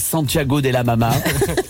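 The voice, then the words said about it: Slight put-on accent. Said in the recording (French): “Je suis pris un petit accent.”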